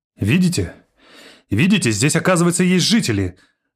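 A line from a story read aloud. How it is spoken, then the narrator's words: Joyful exclamation. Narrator (Russian): обрадованно воскликнула она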